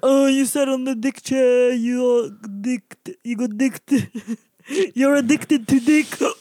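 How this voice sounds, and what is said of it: Exaggerated Lebanese accent voice. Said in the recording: “my accent turns into that voice when I'm talking about it ... My fellow lebs.”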